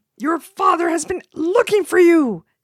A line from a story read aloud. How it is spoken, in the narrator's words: his mother cried